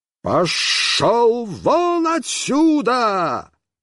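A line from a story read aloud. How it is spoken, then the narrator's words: Terrifying yell. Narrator (Russian): я заорал страшным голосом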